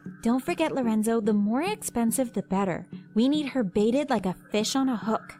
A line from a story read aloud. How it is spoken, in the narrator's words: Tiana said